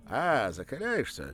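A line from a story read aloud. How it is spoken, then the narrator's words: Brisk, cheerful question. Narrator (Russian): бодро спросил Ануфренко, похоже, ничуть не удивившись столь ласковому обращению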